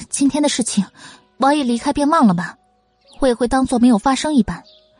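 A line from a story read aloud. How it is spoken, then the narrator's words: Soft, cool voice. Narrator (Chinese): 云柯 叹口轻启道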